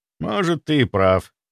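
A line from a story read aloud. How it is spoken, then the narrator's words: Sigh. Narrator (Russian): вздохнул Дима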